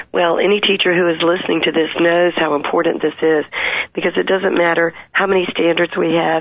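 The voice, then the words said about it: Hoarse, laryngitis-strained voice. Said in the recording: “I have a touch of laryngitis from working with teachers all day”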